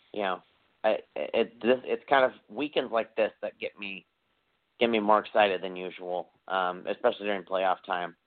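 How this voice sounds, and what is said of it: Hoarse, strained voice. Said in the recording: “I'm losing my voice here. I'm so excited.”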